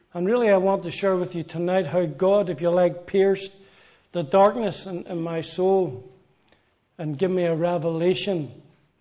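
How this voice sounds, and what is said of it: Northern Irish Belfast accent. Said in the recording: “As you can tell from my accent, ... I come from Belfast, Northern Ireland”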